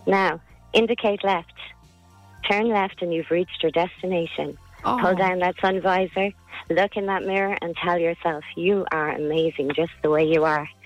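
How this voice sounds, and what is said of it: Sultry, seductive speaking voice. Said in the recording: “A sexy voice”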